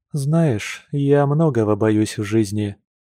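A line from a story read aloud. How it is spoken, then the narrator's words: Sad woman's reply. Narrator (Russian): печально ответила женщина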